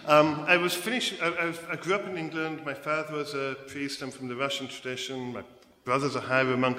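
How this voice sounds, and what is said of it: English accent. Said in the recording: “You can hear I'm not from America... I'm actually from England... keep my English accent in America”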